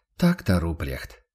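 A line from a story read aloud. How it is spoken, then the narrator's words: Mock sigh. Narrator (Russian): притворно вздохнул Курт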